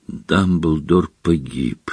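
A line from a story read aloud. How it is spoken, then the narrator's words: Whisper. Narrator (Russian): прошептал мистер Уизли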